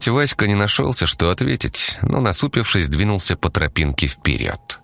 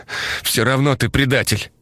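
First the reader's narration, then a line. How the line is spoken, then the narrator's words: Strained, forced out. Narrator (Russian): Выдавил он, когда дыхание восстановилось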